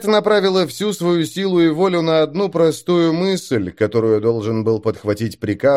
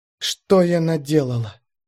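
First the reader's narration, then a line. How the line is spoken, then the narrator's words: Whisper. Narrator (Russian): зашептала Шикет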